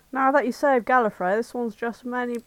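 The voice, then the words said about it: Awkward, badly done put-on accent. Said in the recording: “I've already forgotten how to do this accent. ... It's really awful.”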